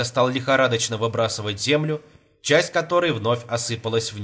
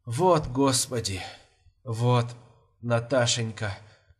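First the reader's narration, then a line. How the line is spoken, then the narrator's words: Trembling muffled voice. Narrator (Russian): Дрожащий голос его глухо звучал в яме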